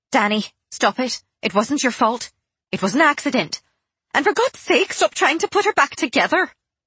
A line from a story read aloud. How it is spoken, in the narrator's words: Fallon snapped